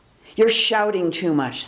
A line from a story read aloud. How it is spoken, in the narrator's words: said Frog